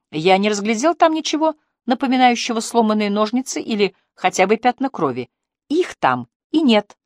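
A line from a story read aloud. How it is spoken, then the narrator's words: Joyful declaration. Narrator (Russian): радостно заявила она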